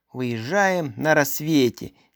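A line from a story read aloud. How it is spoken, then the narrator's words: Reluctant mutter. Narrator (Russian): нехотя буркнул он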